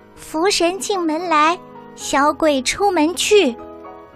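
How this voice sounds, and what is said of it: Soft murmuring voice. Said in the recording (Chinese): “小声的念叨着”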